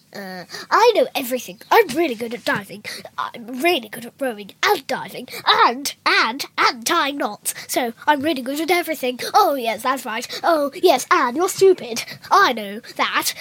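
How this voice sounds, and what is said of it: Impersonates a book character's voice. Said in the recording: “doing an impersonation of Julian from the book”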